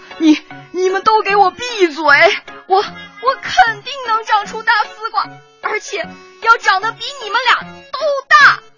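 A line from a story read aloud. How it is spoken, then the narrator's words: Defiant shout. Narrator (Chinese): 不服气的吼道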